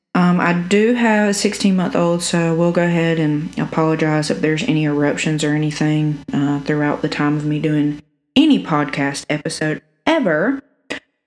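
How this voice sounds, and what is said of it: Southern US (South Alabama) accent. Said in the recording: “I'm from South Alabama, if you can't tell by the cornbread accent.”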